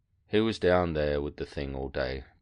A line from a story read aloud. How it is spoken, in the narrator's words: said sadly